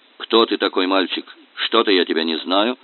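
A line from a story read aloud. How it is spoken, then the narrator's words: Stern. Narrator (Russian): Строго обратился он к Феде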